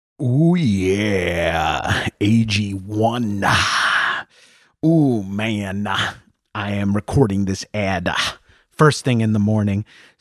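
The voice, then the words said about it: Imitates a wrestler's gravelly voice. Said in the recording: “doing my Macho Man impression.”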